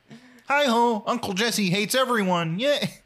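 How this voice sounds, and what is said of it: Deep Kermit the Frog voice. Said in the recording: “in a Ray Romano voice ... I'm doing a deep Kermit the Frog ... Ray Romano really is just a deep Kermit the Frog”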